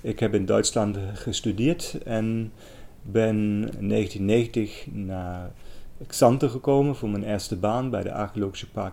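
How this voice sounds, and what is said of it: German accent speaking Dutch. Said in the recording (Dutch): “Ik kom uit Duitsland. Dat hoort mij misschien ook aan mijn accent.”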